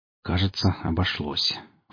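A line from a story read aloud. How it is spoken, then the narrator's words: Low voice. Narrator (Russian): вполголоса сказал Гриф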